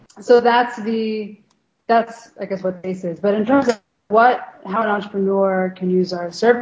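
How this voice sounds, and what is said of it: Voice fading, losing voice. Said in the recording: “I'm like losing my voice while I talk.”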